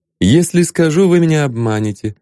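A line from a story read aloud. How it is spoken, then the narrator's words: Plain. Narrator (Russian): ответил Ванзаров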